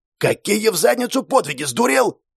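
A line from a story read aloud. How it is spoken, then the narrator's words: Barked, general. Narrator (Russian): рявкнул генерал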